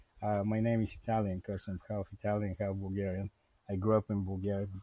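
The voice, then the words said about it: Bulgarian accent. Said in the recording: “I was born in Bulgaria, as you can probably hear from my accent... the accent will never go away. It's always there.”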